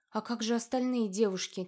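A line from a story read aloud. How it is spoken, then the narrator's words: Quiet question. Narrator (Russian): тихо спросила Лоренция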